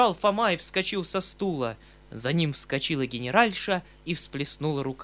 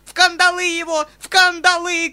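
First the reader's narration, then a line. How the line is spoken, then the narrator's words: Woman shouting. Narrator (Russian): кричала генеральша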